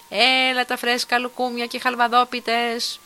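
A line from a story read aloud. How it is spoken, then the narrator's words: Crowd of vendors shouting. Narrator (Greek): τσούρμο από ασπροντημένους πολιτές φωνάζοντας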